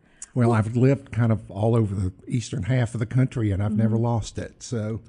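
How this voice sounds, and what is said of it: South Carolina accent. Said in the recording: “you're originally from South Carolina ... we can hear that in your accent”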